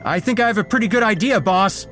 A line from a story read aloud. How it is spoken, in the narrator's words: shouted